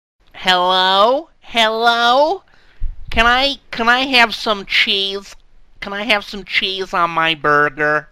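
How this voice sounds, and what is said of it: Put-on American accent. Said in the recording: “Is that an American accent? ... You say that so nicely. That's so attractive, that voice.”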